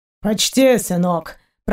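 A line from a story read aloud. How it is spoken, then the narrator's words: Grumbling. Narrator (Russian): проворчал пират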